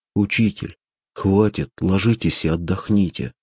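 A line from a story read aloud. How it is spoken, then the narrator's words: Plain. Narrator (Russian): сказал Ромас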